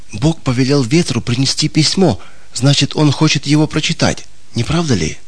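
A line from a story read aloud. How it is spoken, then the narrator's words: Triumphant whisper. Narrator (Russian): он торжествующе прошептал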